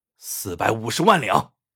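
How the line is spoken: Through gritted teeth. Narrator (Chinese): 他咬了咬牙，说道

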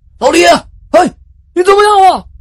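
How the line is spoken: Loud worried shout. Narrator (Chinese): 王博就觉得有些不大对劲儿了，他就大声的喊

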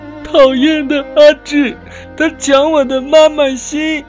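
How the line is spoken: Crying. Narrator (Chinese): 小苹果一边走一边哭着说

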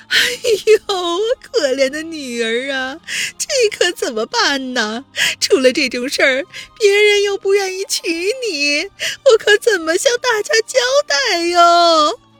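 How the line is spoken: Tearful echoing lament. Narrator (Chinese): 房间里回荡着于红的哭诉

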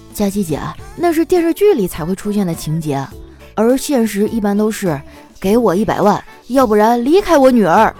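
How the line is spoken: Smiling. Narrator (Chinese): 叨叨笑了笑啊，说

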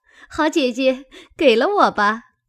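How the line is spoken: Happy, laughing. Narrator (Chinese): 喜得蕊官笑说

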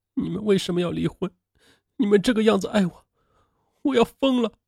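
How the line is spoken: Crying. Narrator (Chinese): 宋建林哭了

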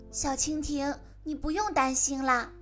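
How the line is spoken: Gentle, slow. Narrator (Chinese): 他用温柔的声音慢慢的对他说

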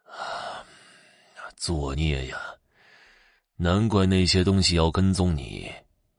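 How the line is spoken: Angry, panting old man. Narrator (Chinese): 老人气得直喘气

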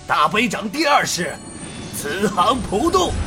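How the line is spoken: Loud voice. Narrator (Chinese): 他大声道

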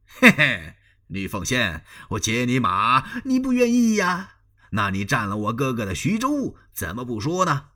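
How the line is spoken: Cold sneering. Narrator (Chinese): 张飞冷笑一声

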